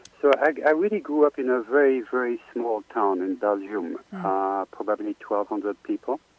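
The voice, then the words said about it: Beautiful French accent. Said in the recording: “I have the French accent. ... Yes, you do. And a beautiful one.”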